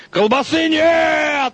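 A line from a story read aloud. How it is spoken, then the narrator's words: Yelling. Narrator (Russian): орал Тит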